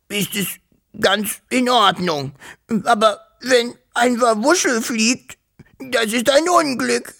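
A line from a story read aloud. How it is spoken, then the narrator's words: Sobbing. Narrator (German): schluchzte er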